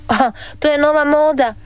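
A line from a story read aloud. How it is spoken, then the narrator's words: Laughing father. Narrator (Croatian): nasmija se tata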